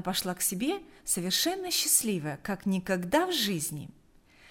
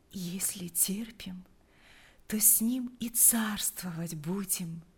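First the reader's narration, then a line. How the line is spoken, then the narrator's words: Sleepy whisper. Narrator (Russian): прошептала, засыпая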